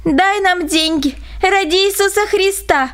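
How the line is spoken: Crowd shouting. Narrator (Russian): кричали

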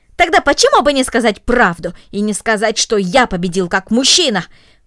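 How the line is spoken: Angry, disappointed exclamation. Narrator (Russian): воскликнул рассерженный, разочарованный Гренби

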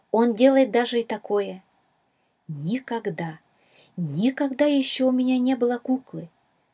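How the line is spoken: Excited exclamation. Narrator (Russian): взволнованно воскликнула Шала

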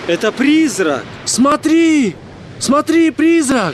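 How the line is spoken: Frightened shouting. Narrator (Russian): Они кричали

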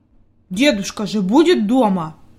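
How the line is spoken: Angry grumble. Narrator (Russian): буркнул Питер сердито

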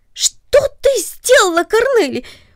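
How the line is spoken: Surprised cry. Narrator (Russian): вскрикнул он от внезапного удивления

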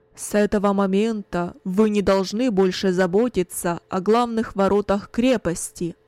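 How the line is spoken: Loud, commanding announcement. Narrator (Russian): Кунерих громко, властным голосом объявил

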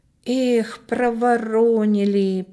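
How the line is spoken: Drawn-out drawl. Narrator (Russian): протянул Коля

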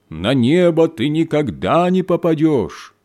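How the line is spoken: Loud shout into chimney. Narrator (Russian): студент громким голосом прокричал в трубу камина

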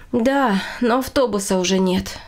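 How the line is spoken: Woman sighing. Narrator (Russian): вздохнула женщина

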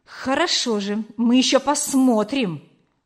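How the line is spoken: Hissed. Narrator (Russian): прошипел Гюга

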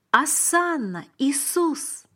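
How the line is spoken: Exclaimed. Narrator (Russian): воскликнул я

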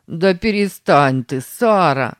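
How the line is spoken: Laughing. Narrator (Russian): засмеялся Сэм

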